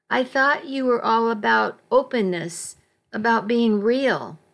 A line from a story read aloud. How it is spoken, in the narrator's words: said, fighting to keep my voice even